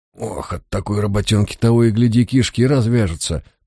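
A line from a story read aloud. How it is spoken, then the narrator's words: Grumbling young man. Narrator (Russian): проворчал молодой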